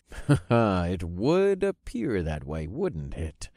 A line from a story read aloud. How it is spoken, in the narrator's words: I chuckled with a knowing air